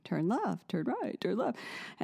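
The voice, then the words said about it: Imitates a robotic navigation voice. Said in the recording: “in that robotic voice”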